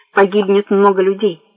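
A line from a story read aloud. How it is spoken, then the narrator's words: Calm. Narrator (Russian): так же спокойно продолжал Седой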